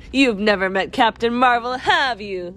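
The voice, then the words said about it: Line spoken while laughing. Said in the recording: “Say it in a laughing voice.”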